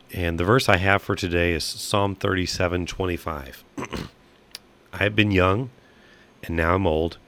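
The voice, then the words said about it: Rough, hoarse voice. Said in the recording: “My voice is a little rough and recovering from some head whatever drainage”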